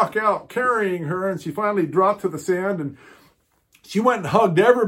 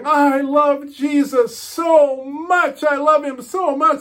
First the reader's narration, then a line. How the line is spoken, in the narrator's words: she kept yelling